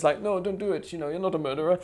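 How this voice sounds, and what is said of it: Put-on Polish accent. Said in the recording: “like my Polish accent. ... Very good Polish accent.”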